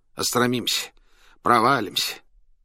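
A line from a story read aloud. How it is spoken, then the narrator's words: Shivering nervous mutter. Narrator (Russian): пожимаясь от холода и волнения, бормотал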